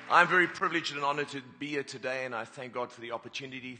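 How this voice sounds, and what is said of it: Speaker's own non-local accent. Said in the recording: “we say pastor, you'll have to get used to my accent. People say pasta is what you eat in an Italian restaurant”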